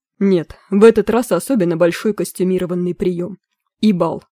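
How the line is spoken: Explained through gritted teeth. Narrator (Russian): сквозь зубы объяснил Кервин Квирт, причем лицо его при этих словах исказилось

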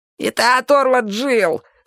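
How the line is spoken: Weak squeak, thin man. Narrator (Russian): слабо пискнул тощий

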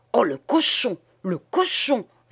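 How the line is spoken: Bellowing outrage. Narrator (French): vociféra monsieur le doyen en manière de rat pronobis

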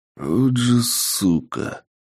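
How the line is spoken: Hissed. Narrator (Russian): прошипел я

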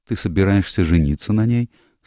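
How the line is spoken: Calm question. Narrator (Russian): спокойным голосом поинтересовалась Эленор

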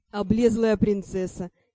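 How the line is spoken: Giggling. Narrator (Russian): хихикнул Ар

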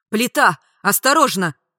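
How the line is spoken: Shouted warning. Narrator (Russian): закричал

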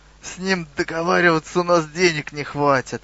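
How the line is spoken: Mutter. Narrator (Russian): пробурчал Хрюгл

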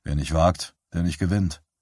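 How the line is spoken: Tired repetition. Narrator (German): Bannerman zuckte müde mit den Schultern und wiederholte

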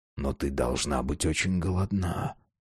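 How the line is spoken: Whispered. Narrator (Russian): прошептал Росс

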